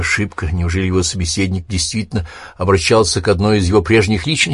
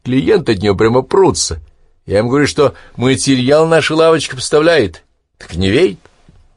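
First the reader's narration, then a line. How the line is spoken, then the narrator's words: Laughing. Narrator (Russian): Он засмеялся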